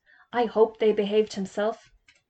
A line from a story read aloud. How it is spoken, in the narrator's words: he asked Mr